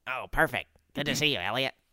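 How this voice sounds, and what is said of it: Imitates another person's voice. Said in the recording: “Which is a very good Charlie impression.”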